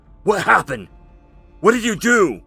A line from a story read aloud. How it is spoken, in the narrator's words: she shouted